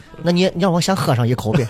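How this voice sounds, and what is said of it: Imitating Constable Xing's regional accent. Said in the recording (Chinese): “说了一口地道的邢捕头的口音”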